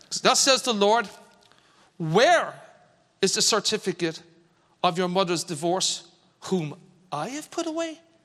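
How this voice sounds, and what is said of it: Put-on Irish accent. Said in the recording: “I'm going to play the voice of God here. ... With an Irish accent.”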